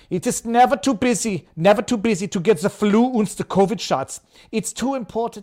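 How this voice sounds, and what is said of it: Imitates another person's accented voice. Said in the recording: “I'll do that, Klaus Schwab ... why I'm going with the accent”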